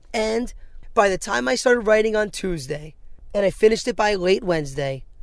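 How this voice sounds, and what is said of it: Excited, upbeat tone of voice. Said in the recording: “I was excited to put a microphone in front of my face and talk about it. I hope you can hear it in my voice right now. ... is this the tone of somebody who just went 3-10? ... But I am excited”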